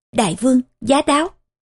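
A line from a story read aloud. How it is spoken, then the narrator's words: Loud ceremonial call. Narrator (Vietnamese): Nội thần đứng hầu bên cạnh, cao giọng hô vang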